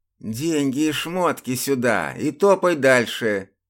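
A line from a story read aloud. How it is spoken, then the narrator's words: Lisping. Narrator (Russian): прошепелявил один из них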